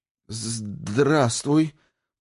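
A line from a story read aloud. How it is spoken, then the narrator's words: Timid babbling. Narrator (Russian): пролепетала девушка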